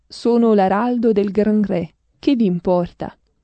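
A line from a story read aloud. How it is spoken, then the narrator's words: Confident voice. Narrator (Italian): Con voce sicura il poverello di Assisi rispose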